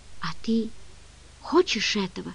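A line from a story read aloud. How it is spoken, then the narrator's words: Whisper. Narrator (Russian): прошептала она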